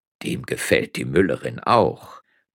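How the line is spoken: Murmuring. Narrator (German): murmelte der zweite Geistliche

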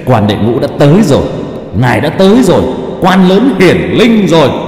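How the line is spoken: Loud laughter. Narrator (Vietnamese): Nghiệp chướng quỷ thần cười lớn

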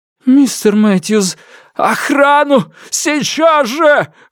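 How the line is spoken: Sobbing shout. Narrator (Russian): выкрикнул он, содрогаясь от рыданий

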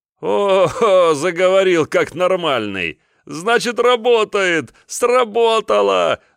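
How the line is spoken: Loud laughter. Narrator (Russian): захохотал он

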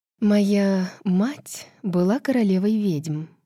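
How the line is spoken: Utterly bored tone. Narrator (Russian): предельно скучающим тоном произнесла она

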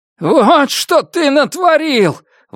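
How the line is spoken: Yelling. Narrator (Russian): вопил Дики

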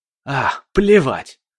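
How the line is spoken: Dismissive snort. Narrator (Russian): фыркнул он

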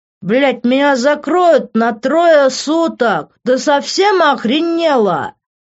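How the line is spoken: Yelling. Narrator (Russian): заорал он

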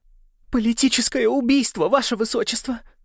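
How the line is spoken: Tearful. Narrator (Russian): сказала она сквозь слезы, текущие по лицу

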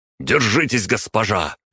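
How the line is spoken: Tense shout. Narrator (Russian): напряженно выкрикнул Кирилл, личный водитель Алисы Ярославовны Рязановой

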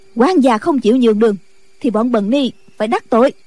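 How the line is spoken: Sharp shout. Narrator (Vietnamese): Nghi Hòa quát

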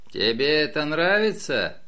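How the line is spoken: Mocking question. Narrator (Russian): насмешливо спросил Тео

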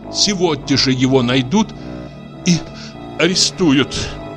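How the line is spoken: Lady, sobbing. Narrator (Russian): сказала барыня и всхлипнула

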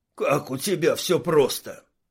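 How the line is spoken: Muttering. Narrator (Russian): пробурчал Шмель

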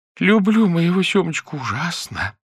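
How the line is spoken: Sobbing. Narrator (Russian): всхлипывала

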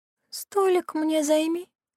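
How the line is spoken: Moaning. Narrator (Russian): простонала Кира

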